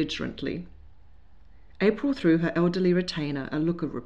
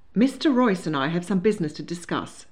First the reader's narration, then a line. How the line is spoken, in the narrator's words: said hastily